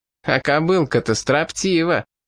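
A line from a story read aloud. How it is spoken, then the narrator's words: Loud laughter. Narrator (Russian): громко расхохотался главарь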